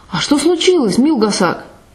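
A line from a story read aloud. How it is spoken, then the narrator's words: Frightened, confused question. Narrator (Russian): Курак, не понимая, в чем дело, испуганно спрашивает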